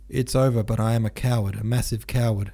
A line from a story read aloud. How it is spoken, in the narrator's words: thought